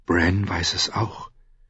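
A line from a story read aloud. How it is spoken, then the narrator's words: Whisper. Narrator (German): flüsterte sie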